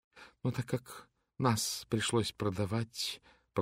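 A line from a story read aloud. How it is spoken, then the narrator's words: Slightly trembling voice. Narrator (Russian): продолжала миссис Фолиат слегка дрогнувшим голосом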